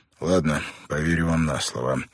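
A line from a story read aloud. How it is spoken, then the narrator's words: Sighing. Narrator (Russian): вздохнул Бен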